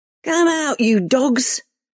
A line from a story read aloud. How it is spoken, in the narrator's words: Reva shouted into the darkness